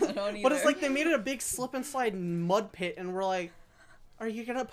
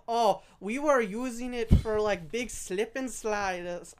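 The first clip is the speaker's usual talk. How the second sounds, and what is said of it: Put-on unidentified accent. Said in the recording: “I don't know what that accent was.”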